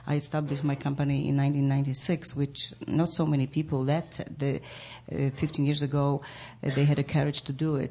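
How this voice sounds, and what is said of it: Foreign, non-American accent. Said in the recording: “I have a different accent. I'm like the I mean foreigner. I'm not American”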